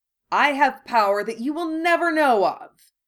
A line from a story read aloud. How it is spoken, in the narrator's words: Harry shouted recklessly